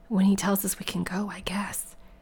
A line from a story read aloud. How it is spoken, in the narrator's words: Kevin whispered back